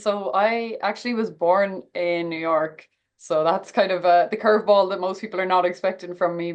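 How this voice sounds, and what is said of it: Strong Irish accent. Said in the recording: “you do come from Ireland. And obviously the accent is still very strong”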